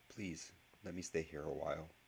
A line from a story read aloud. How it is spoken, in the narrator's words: Though it felt like sacrilege, Harry managed to whisper